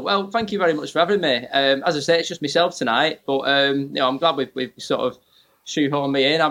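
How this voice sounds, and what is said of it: Northwest English accent. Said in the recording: “I can hear a northwest sort of accent. ... very northern ... Northwest England”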